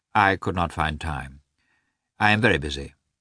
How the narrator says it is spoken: Karenin answered dryly

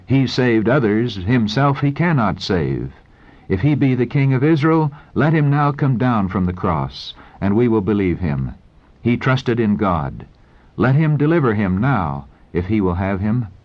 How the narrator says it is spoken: wagging their heads in satanic exultation, they exclaimed

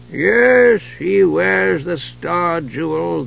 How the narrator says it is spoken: the old crone had mumbled through her toothless mouth

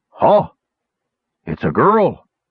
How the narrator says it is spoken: he grunted

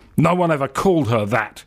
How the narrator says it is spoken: spits Lothar Preen angrily

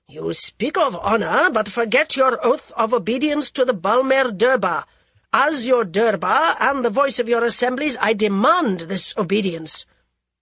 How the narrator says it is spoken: Jai Singh said harshly

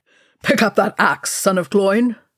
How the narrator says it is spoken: Thorin barked

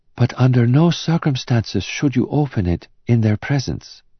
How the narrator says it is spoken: whispered Anna

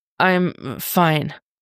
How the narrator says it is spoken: he croaks out

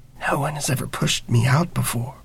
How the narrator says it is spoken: She whispers

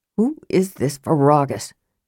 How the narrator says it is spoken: Karaman muttered

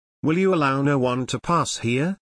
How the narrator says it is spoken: asked in an exhausted tone

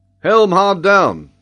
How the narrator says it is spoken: cried Mangles to Wilson

